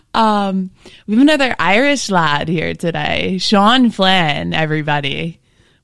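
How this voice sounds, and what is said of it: Polished radio announcer voice. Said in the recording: “I just turned on my radio voice.”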